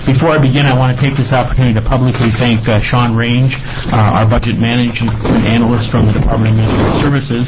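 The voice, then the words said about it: Wisconsin accent. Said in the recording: “you can tell from my voice that I don't sound like I'm born and raised in Oregon. I hail from the state of Wisconsin”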